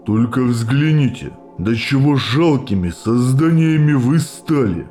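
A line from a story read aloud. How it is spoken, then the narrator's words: Through gritted teeth. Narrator (Russian): процедил первый капитан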